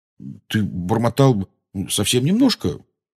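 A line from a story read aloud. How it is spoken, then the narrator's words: Apologetic mumble. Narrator (Russian): извиняющимся тоном промямлил он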